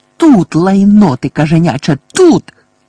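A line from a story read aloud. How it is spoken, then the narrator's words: Shriek. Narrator (Ukrainian): верещала місіс Фіг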